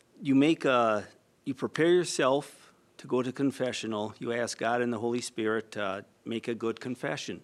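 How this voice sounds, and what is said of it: Slight Minnesota accent. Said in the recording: “A little bit of that accent.”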